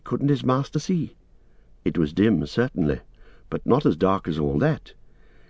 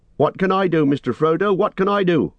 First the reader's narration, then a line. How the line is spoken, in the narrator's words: shouted Sam